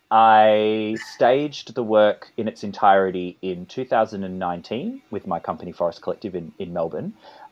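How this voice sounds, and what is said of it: Australian accent. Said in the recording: “Here in my Australian accent”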